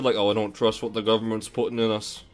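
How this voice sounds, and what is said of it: Brief put-on Scottish accent. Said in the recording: “like a Scottish accent for a second”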